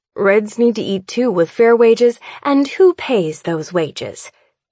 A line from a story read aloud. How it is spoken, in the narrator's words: Mother snaps